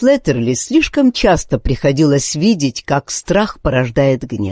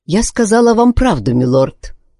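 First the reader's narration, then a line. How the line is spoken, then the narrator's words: Calm reply. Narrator (Russian): ответила она спокойно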